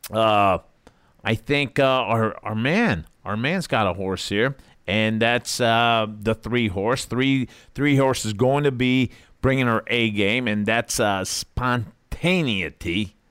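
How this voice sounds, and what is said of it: American East Coast accent. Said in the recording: “East Coast accent. I never got rid of it.”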